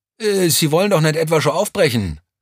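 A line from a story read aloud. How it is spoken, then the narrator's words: Excited call. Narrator (German): rief Vierlinger aufgeregt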